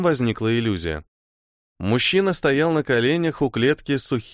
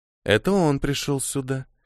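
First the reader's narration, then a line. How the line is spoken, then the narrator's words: Soft purr. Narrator (Russian): мягко промурлыкала Аурелия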